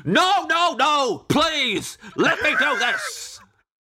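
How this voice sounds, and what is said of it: Imitates another person's voice. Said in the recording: “my impression of you at the end of any meal”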